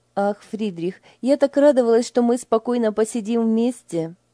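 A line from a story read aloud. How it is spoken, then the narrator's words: Sighing. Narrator (Russian): вздохнула Лиля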